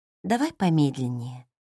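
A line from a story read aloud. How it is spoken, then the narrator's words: Quiet suggestion. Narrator (Russian): тихо предложила она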